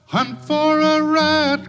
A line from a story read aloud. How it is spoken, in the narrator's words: cried Billy Barlow